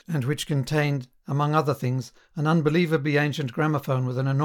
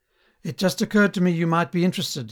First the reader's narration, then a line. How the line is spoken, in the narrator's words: he would say with a deprecating little laugh